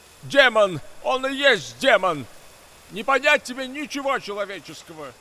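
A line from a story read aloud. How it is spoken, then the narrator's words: Indignant old man shouting. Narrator (Russian): Возмущенно прокричал старик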